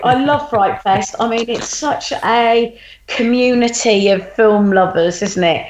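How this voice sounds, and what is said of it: Excited, enthusiastic voice. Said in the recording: “you can tell the excitement in my voice, can't you?”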